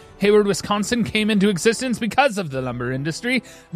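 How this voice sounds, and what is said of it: Attempted Canadian accent. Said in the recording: “I don't know why we can't get a Canadian accent down, but we're trying our best. That was Canadian, right?”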